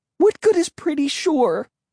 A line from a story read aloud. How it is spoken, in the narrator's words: Emily cried shrilly